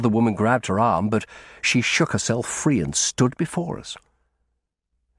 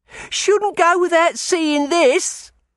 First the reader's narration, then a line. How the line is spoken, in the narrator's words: she laughed wildly